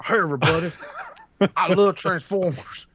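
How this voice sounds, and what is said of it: Imitates another person's voice. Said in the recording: “my Matt impression.”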